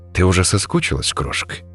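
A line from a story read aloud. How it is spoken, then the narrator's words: Low voice. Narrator (Russian): низким голосом спросил он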